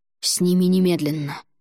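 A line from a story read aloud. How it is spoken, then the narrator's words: Hissing. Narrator (Russian): прошипел Альгидрас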